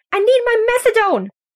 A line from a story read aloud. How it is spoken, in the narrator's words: shrieks an elderly woman